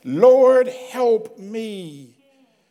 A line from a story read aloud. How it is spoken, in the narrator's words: pleading again